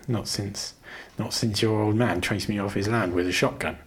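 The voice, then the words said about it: Thick West Country accent. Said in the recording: “his West Country accent thick”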